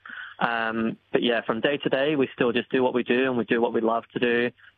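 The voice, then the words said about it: English accent. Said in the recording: “do I detect a hint of an accent there ... Yes, I am English.”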